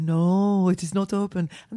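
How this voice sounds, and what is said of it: Put-on Spanish accent, sounding Russian. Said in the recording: “Why are all the toilet attendants in Spain Russian? ... That wasn't my Russian accent ... Well, it sounded like it, didn't it? ... That was my best Spanish.”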